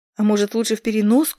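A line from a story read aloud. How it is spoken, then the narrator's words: Pleading. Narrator (Russian): взмолился он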